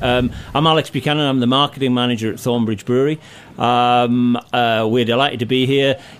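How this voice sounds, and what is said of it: English accent. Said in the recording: “speak in your English accent”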